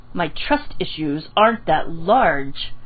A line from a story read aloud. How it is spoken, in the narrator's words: Kakashi informed him